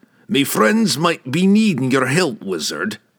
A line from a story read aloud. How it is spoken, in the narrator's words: the dwarf growled